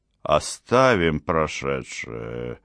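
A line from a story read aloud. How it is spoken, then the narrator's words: Gloomy. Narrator (Russian): сказала мрачно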